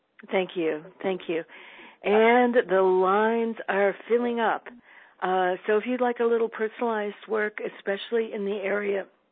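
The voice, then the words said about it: Strained, failing voice. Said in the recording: “My voice has been going a little bit during the call today, and it's got a lot to do with heavy, heavy pollen in my area. ... So please forgive the voice.”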